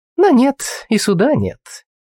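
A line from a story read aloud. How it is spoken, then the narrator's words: Mocking, smiling. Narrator (Russian): насмешливо улыбнулась девушка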